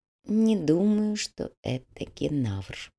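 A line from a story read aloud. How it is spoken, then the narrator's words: Barely audible whisper. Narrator (Russian): едва слышно прошептал Тао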